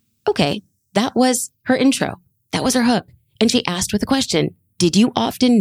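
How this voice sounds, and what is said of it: Usual voice. Nothing is said of it.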